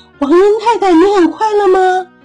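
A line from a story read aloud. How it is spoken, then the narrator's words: Loud question. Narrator (Chinese): 大声的问黄莺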